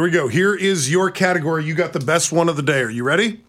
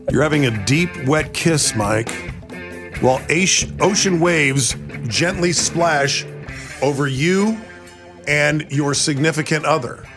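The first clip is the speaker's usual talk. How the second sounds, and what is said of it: Slow, smooth public-radio announcer voice. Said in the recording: “you want me to slow that down for you? ... Wet your lips. ... Really put your NPR voice on with it.”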